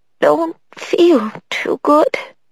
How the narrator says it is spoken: she finally said in a weak voice

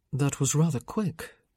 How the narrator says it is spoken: Michael murmured

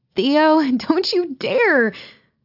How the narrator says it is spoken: Meg squeals

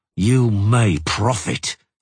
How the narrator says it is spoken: he growled

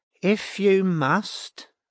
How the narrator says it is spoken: said Janice slowly

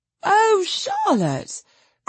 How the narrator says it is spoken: cried Lucy to her cousin

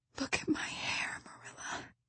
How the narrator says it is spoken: she whispered

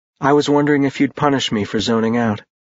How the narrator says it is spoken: she said quietly

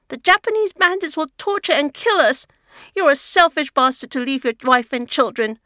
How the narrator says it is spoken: Her voice rises in desperation

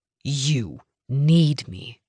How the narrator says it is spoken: Denver hissed

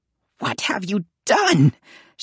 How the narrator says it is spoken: she cried out

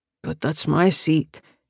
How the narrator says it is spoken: he mumbles

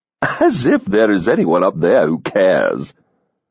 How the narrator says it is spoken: she heard someone say dryly

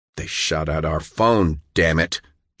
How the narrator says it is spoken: John snapped

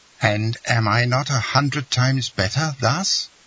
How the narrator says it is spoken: cried Eugenie

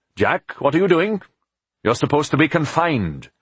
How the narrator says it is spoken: Philip called out

